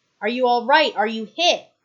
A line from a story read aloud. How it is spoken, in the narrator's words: he shouts